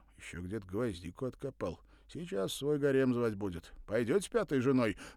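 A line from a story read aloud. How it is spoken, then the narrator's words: Laughing. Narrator (Russian): захохотал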